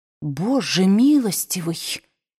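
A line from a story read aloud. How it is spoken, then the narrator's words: Whispered. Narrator (Russian): прошептала она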